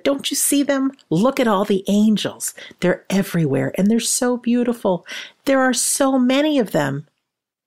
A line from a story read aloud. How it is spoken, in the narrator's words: She shouted